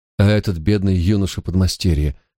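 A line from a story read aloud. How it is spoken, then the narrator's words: Sighing. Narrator (Russian): вздохнула королева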